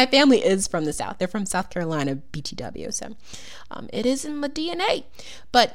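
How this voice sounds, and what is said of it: Usual voice. Nothing is said of it.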